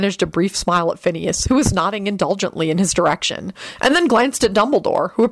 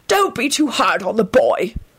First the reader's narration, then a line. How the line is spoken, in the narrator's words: wheezed the raspy voice of Phineas Nigellus